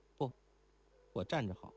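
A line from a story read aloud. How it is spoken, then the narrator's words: Quiet voice. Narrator (Chinese): 那女郎 低声道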